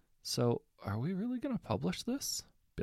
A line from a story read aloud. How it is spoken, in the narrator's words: Bill asked hesitantly